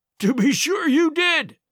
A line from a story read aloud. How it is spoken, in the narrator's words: he cried